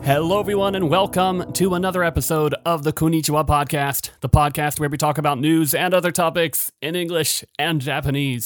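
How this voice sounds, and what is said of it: Slightly excited, upbeat voice. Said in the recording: “I sound a little excited”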